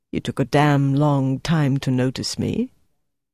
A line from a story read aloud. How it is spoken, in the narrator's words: Dieter replied quietly in German